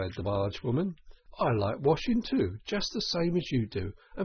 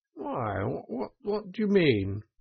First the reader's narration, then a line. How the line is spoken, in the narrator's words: asked the Toad nervously